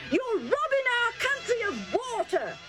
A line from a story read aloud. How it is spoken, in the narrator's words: they yelled